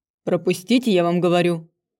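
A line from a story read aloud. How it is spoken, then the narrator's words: Muffled growl behind door. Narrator (Russian): за дверью явно зарычали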